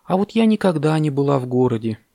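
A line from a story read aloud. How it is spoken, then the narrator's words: Sad. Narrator (Russian): печально сказала она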